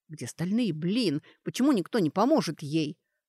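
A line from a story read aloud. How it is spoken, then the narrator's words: Sudden hiss. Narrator (Russian): Шаман внезапно зашипел, словно пытался шепотом выговорить букву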